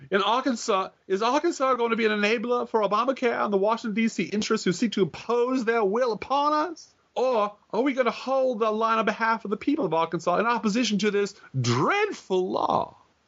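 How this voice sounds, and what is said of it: Exaggerated Southern accent. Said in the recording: “in my best Beauregard Southern voice.”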